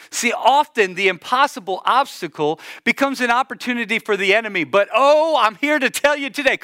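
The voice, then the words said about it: Sing-song, musical preaching delivery. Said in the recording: “you heard the singing in my voice.”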